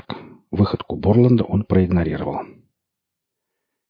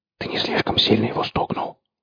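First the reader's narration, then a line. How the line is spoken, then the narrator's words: Whispered question. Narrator (Russian): шепотом спросил Орех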